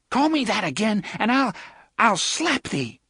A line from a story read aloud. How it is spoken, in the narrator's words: Susan cried